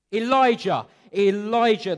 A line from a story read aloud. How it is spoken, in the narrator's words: they screamed out my name, impatiently waiting, mocking me